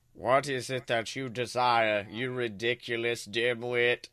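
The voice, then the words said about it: Cold, angry Snape voice. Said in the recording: “Snape demeaned angrily in his cold voice”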